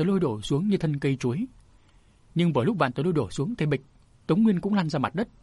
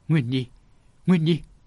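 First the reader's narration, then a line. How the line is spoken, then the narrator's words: Panicked cry. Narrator (Vietnamese): miệng bà kêu lên hốt hoảng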